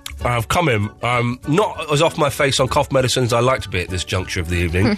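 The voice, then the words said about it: Congested voice with a cold. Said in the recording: “I've got a cold.”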